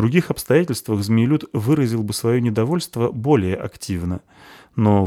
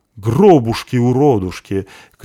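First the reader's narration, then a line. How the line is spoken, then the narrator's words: Shouted by a bearded dwarf. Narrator (Russian): крикнул забежавший в таверну бородатый дварф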